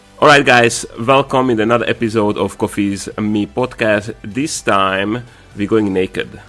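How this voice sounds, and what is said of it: Weird voice from illness. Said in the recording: “my weird voice. I was really sick when we're recording this podcast.”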